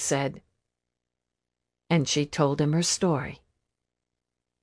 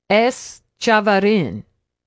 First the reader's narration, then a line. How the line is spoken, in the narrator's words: he called out